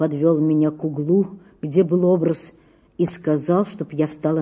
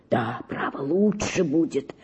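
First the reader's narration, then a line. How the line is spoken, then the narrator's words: Whispered. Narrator (Russian): шептал он мне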